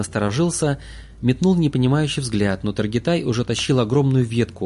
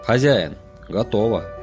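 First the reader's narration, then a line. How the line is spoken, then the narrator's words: Hoarse, quiet voice. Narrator (Russian): Голос был сиплым, негромким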